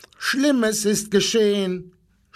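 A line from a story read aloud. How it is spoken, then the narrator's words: Animals screaming. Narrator (German): schrien die Tiere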